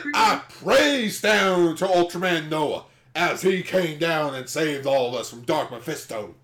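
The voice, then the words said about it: Put-on Southern US accent. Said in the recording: “Why is there so many Southern accents today?”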